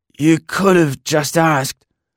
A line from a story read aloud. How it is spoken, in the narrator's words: I replied hoarsely